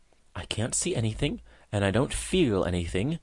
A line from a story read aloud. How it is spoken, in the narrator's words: murmured she